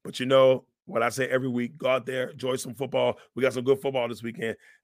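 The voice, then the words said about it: Hoarse, fading voice. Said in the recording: “I'm losing my voice, as you can tell.”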